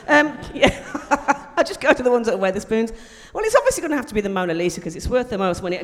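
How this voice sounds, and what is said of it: Wolverhampton regional English accent. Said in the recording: “Have you heard my accent? ... Wolverhampton”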